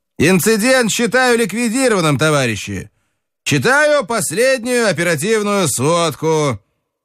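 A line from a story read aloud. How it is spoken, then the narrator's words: Loud. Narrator (Russian): Сапожков начал громко читать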